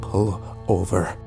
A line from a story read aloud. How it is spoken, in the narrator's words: I said quietly